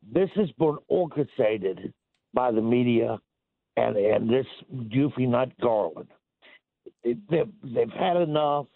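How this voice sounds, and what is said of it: Impaired, affected speaking voice. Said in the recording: “I had a stroke, so forgive my voice.”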